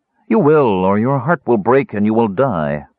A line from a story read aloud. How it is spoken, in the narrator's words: said coolly